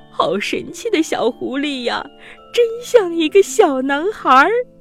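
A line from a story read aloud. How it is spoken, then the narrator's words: Old woman, laughing. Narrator (Chinese): 老奶奶也笑着对老爷爷说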